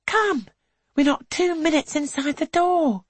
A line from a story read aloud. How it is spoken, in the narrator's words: says Suki, although she is fierce afraid to see such faltering in her aunt